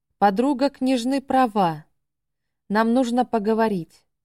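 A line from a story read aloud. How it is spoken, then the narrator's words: Calm. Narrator (Russian): спокойно отозвался наследник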